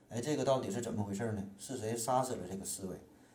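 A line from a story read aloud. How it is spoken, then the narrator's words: Weeping bitterly. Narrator (Chinese): 曹操就一顿痛哭流涕呀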